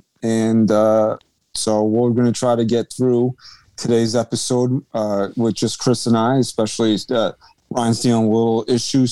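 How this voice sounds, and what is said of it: Worn-out, low-energy voice. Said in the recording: “My voice is shot, and I don't have a lot of oomph in it. So if it's coming off low energy”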